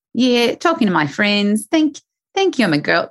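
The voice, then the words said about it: Put-on Australian accent. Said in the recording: “my bad Australian accent ... It's good. I'm liking it.”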